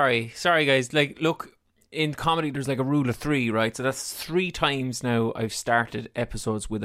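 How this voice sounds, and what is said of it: Usual voice. Nothing is said of it.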